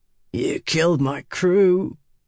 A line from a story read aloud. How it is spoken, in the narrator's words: Red growled